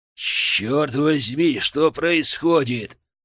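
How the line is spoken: Growling. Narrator (Russian): прорычал Михай

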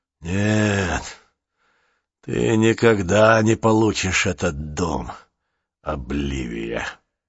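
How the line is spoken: Through clenched teeth. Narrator (Russian): проговорил он сквозь зубы

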